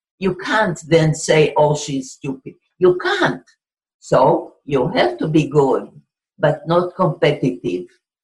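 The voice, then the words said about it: English with a Hebrew accent. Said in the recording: “I had a crazy benefit from having an accent. I spoke English in a Hebrew accent”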